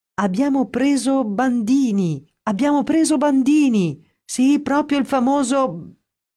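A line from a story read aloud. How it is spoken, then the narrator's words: Excited shouting. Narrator (Italian): a gridare tutto esaltato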